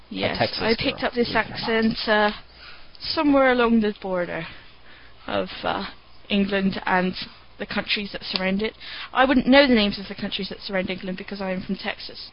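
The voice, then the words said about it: Put-on English accent, poorly done. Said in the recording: “Such an appalling accent. ... she's not really from England at all, or that surrounding area. She's a Texas girl.”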